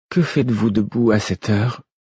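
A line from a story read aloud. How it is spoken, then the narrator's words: Weary tone. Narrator (French): fit-elle d'un ton las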